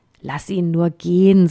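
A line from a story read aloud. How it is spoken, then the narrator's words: Plain. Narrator (German): sagte ein anderer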